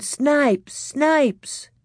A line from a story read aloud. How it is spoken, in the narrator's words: All the boys were yelling